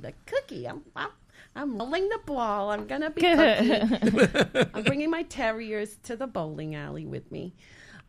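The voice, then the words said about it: Put-on Long Island accent. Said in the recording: “That's my Long Island accent.”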